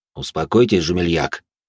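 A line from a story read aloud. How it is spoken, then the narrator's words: Calm steady voice. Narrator (Russian): все тем же спокойным голосом произнес Пьер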